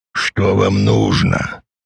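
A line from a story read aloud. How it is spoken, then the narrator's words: Hoarse question. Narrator (Russian): хрипло спросил Дач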